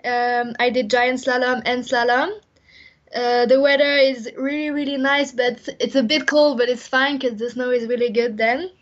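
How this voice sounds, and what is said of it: Slight French accent. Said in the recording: “We can hear from your accent that you're probably not from Tipperary ... my dad is French, that's why I have a little French accent”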